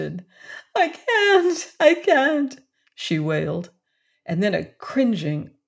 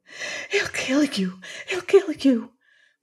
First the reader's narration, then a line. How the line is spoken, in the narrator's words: whispered the woman